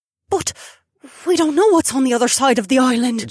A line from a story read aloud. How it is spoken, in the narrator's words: Gemma gasped